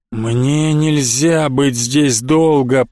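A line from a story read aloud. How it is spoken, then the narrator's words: Moaned. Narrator (Russian): простонал Винрол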